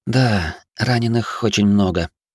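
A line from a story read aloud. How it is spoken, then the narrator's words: Sigh. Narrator (Russian): вздохнула травинка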